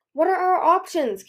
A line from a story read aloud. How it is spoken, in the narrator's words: Kibley said frantically